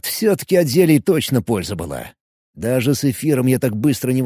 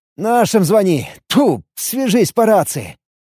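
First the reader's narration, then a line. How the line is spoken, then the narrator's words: Happy voice. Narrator (Russian): Счастливым голосом ответил ему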